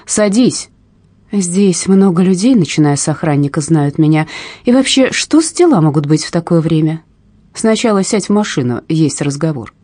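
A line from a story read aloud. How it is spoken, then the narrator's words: Shouting. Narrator (Russian): закричал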